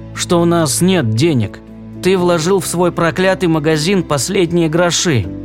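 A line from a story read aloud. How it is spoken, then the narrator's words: Tired, after a pause. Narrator (Russian): немного помолчав, устало произнесла Рут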